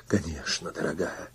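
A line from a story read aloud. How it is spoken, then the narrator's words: Whispered. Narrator (Russian): шепотом проговорил я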